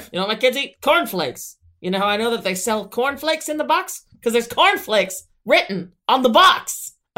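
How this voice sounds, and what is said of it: Loud, emphatic imitation of another person. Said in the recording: “I don't know what accent I was going for there, but I hit absolutely none of them ... be loud ... Just have to be loud and emphatic ... The secret to the Herm accent is just volume”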